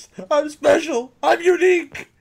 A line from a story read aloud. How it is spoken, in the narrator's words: she screams